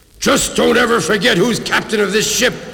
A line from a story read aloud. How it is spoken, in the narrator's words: roared Blackbeard